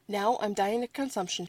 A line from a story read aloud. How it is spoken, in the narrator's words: she said